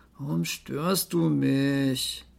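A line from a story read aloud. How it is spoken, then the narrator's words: Growled. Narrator (German): Finn knurrte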